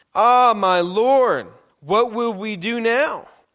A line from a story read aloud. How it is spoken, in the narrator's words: He cried out to Elisha